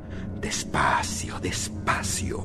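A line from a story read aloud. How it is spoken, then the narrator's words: Murmuring. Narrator (Spanish): murmuré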